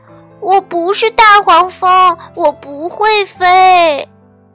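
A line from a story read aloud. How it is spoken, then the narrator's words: Terrified shouting. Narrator (Chinese): 他的双腿发抖，肚皮打颤，小憨大叫起来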